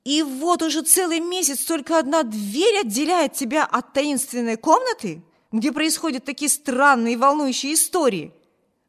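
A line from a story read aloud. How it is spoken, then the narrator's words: Exclaiming. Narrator (Russian): воскликнул Виберт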